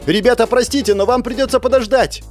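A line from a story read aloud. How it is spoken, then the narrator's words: Shouted. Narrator (Russian): крикнула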